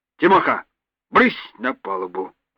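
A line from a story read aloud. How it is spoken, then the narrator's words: Grumbling. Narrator (Russian): проворчал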